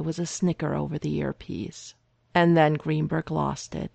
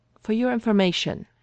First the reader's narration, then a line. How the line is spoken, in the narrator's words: replied rather testily